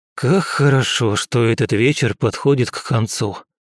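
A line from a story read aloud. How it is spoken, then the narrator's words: Tired, exhausted. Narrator (Russian): Устало проговорил я, осознавая, что за последнюю неделю я толком не спал и практически не ел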